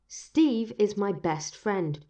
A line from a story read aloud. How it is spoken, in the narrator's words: Bucky said hotly